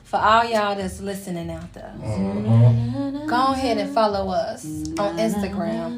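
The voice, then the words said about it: Sultry late-night radio voice. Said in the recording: “I had to put my sexy voice on. That's how I do it on the radio at night.”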